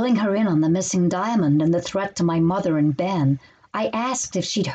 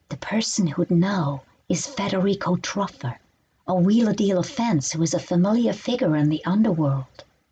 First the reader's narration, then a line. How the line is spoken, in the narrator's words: Looking around as if the place were bugged, she whispered